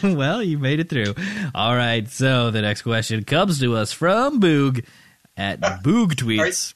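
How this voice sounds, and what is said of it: Announcer-style radio voice. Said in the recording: “Are you breaking into... Radio voice? ... Yeah, radio voice.”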